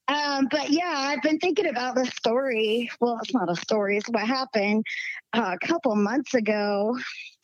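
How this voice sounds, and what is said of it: Slight Southern US twang. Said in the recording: “I still got a little southern twang in my voice.”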